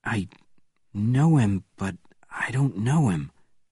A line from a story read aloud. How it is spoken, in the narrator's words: replied Bourne quietly